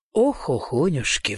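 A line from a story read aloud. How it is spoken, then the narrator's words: Sighing. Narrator (Russian): вздохнул я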